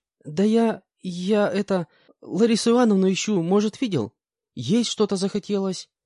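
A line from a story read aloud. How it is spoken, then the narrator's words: Timid young woman's reply. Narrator (Russian): как-то робко ответила девушка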